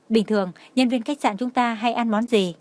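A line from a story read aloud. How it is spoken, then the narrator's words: Indifferent smiling question. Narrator (Vietnamese): Tường Thiên Lỗi mỉm cười, âm thanh nhàn nhạt hỏi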